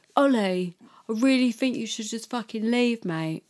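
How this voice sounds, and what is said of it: Fake Cockney accent. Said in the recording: “Did he do it in like a fake Cockney accent? ... Was it like that?”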